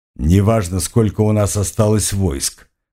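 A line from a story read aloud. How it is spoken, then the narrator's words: Snorting. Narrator (Russian): хмыкнул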